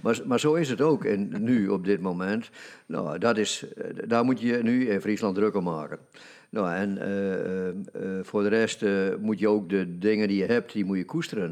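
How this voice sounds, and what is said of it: Frisian accent in Dutch. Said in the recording (Dutch): “ik ben Fries en ik heb dus een accent ... ze herkennen me aan mijn geluid”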